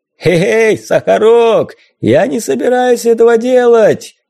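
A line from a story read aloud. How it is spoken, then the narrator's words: Loud laughter. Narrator (Russian): Захохотал Мванга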